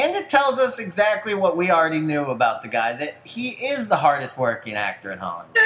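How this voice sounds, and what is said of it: Usual voice. Nothing is said of it.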